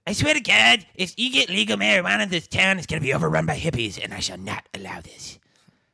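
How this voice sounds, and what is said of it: Cartoon character voice. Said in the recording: “I'll do Cartman ... Cartman!”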